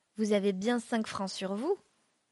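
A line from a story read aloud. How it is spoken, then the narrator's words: Plain answer. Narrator (French): Maître Saval répondit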